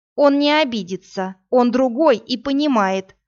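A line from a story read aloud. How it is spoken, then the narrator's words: Angry reply. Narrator (Russian): зло ответила Иви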